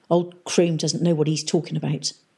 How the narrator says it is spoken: muttered one of the men on duty at the Quirk Circus elevator station

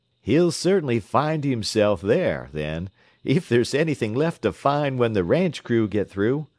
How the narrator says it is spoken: laughed the operator

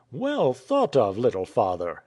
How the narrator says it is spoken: exclaimed Nicholas

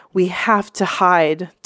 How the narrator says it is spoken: Taeyong panted

